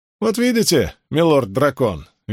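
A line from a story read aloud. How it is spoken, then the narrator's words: Cheerful. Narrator (Russian): весело произнес Асмодиан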